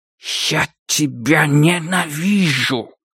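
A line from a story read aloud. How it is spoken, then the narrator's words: Hissed. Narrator (Russian): прошипел он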